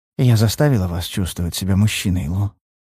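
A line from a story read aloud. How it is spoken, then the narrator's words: Whisper in ear. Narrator (Russian): шепнула мне на ухо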